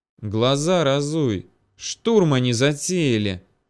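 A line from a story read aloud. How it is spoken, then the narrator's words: Nervous hiss. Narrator (Russian): прошипел в ответ нервничавший парень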